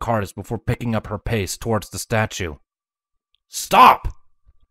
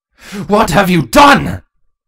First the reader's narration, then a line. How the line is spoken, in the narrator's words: Cardis shouted in a mixture of anger and fear